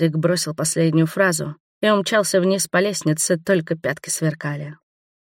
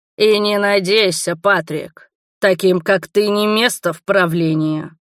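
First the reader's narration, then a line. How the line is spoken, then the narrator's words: Growl. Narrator (Russian): прорычал Роберт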